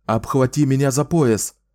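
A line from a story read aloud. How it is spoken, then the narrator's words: Shouted. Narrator (Russian): прокричал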